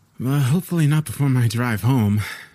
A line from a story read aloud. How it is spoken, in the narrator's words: I sighed